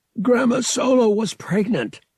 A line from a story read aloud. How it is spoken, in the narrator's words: Thrakken gasped, because it was hard to breathe with Han sitting on his chest